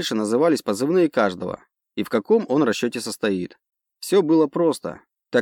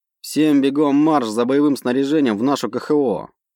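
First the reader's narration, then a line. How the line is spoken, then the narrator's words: Growled command. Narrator (Russian): рыкнул напоследок командир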